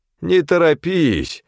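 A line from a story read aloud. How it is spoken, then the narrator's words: Trembling drawl. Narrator (Russian): с дрожью в голосе протянул Федор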